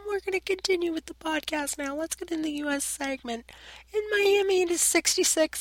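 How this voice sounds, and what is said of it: Strained, failing voice. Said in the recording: “I'm losing my voice majorly”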